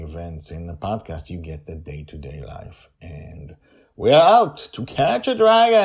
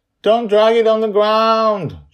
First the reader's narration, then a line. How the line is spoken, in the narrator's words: Joy yells from the deck